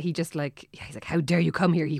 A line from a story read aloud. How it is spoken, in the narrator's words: He whispered, his whole body beginning to shake